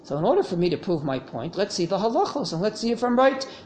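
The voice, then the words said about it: Brooklyn accent. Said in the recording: “Brooklyn accent can't fool anyone. If I had an English accent, all right, that sounds intelligible. But a Brooklyn accent,”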